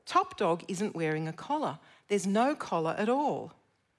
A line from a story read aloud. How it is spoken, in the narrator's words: said the dog to her mother in a very loud voice